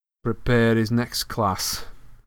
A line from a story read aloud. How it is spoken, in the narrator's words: Ron sneered after him